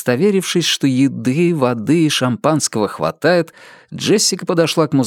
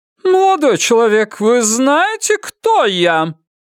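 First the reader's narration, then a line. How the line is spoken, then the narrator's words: Loud, commanding. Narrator (Russian): громко и властно спросила она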